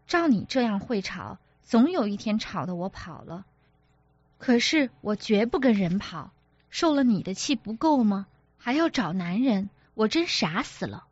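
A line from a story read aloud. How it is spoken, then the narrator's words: Laughing. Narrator (Chinese): 柔家笑道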